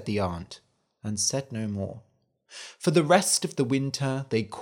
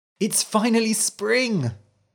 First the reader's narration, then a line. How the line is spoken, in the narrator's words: he cried